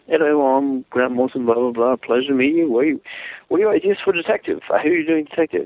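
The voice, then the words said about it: Thick Scottish accent, Grant Morrison impression. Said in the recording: “in that thick Scottish accent”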